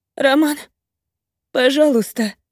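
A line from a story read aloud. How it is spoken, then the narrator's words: Sobbing. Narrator (Russian): всхлипываю я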